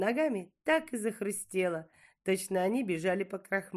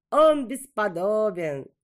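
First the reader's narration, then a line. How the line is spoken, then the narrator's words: Laughing young girl. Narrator (Russian): Молодая девушка засмеялась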